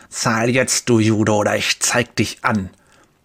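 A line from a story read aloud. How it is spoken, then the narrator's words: Spitting hiss. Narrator (German): Speichel sprüht, als er zischt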